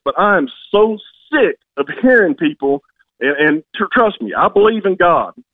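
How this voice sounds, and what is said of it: Angry, agitated voice. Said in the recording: “can hear the anger in my voice”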